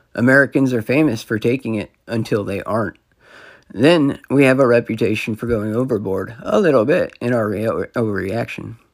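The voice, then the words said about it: Hoarse voice. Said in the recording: “hoarse voice”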